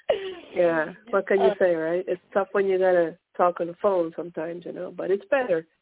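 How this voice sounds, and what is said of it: Hoarse voice from a cold. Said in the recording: “I'm recovering from a cold, so I apologize for my sexy voice ... We all have the sexy voice going on right now”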